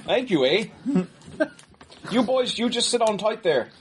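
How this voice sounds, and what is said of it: Put-on Canadian accent. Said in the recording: “Canadian accent.”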